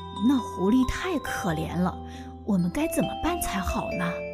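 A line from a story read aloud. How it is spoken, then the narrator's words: Low-voiced consulting. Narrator (Chinese): 他低声跟太太商量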